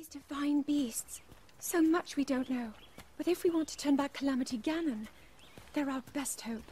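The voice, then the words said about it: High-pitched posh British Zelda voice. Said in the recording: “Zelda's high-pitched, strangely posh British accent that comes off a lot like a 30-year-old doing a young girl's voice”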